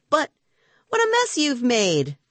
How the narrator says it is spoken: cried my aunt

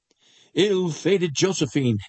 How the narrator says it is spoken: exclaimed he mentally

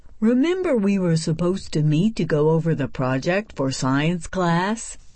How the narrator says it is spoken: Rebecca sighed and tried to get her heart to stop racing

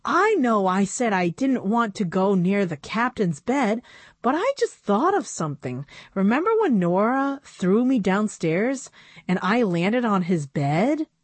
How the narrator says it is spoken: exclaimed

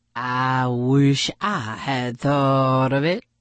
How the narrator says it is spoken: grumbled Harry

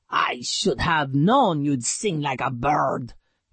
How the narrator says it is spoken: he growled at Sugar

